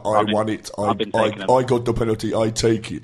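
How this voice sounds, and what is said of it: Put-on Polish accent. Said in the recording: “Brilliant Polish accent. Brilliant.”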